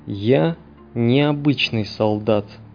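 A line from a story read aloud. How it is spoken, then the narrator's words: Slow deliberate speech. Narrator (Russian): медленно выговорил он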